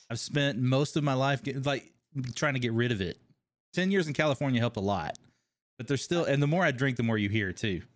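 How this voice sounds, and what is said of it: Slight Kentucky twang accent. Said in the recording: “You've got like a bit of an accent, like a twang ... Kentucky, originally.”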